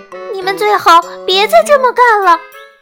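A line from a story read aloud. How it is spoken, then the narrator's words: Loud shout. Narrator (Chinese): 大声喊道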